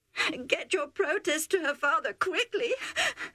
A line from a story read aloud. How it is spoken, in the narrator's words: Rebecca sobbed